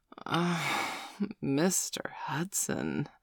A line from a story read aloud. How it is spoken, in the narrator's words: moaned